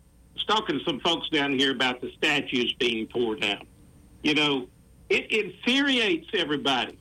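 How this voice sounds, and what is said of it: Southern American accent. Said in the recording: “That's some Southern brogue, I guess. ... I'm Southern, purebred, 100% Southern.”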